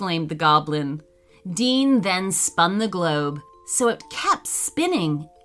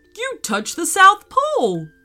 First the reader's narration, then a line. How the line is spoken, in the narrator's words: cried Milo